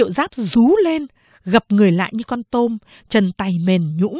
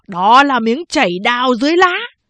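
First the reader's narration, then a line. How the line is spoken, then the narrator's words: Loud praise. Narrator (Vietnamese): Quan Lưu Tình, một tay biết võ, lớn tiếng khen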